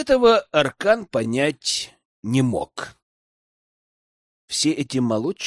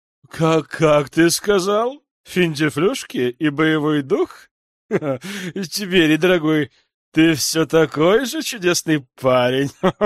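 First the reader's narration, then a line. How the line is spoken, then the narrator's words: Hearty laugh. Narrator (Russian): Запрокинув голову назад, рассмеялся вельможа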